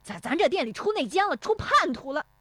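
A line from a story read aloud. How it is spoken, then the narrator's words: Flustered, furious shouting. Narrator (Chinese): 石有福气急败坏的嚷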